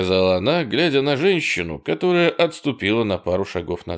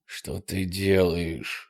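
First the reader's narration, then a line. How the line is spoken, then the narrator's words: Whispered question. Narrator (Russian): спросил Боб, перейдя на шепот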